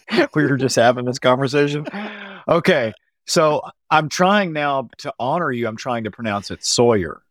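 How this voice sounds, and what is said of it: Southern American drawl. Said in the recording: “has a Southern drawl ... Is the Southern accent super obvious?”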